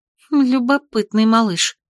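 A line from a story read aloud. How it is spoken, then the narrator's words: Inner sigh. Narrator (Russian): мысленно вздохнула Катя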